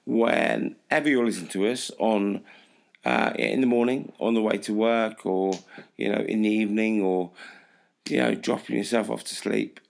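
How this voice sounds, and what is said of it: Hoarse, strained voice. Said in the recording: “my voice sounds ridiculous this week ... I've been shouting a lot ... My voice has been affected”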